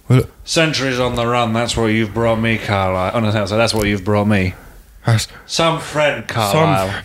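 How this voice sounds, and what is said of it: Impression of Alistair. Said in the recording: “do an Alistair impression? ... The character.”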